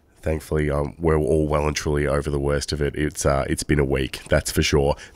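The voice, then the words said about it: Voice sounds unwell. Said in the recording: “influenza A ... You can probably hear my voice is not as good as it should be.”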